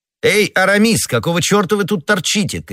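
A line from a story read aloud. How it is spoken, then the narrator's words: Two friends shouting. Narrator (Russian): крикнули оба друга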